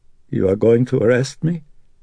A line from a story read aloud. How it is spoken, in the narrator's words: Carl asked in a voice that now quavered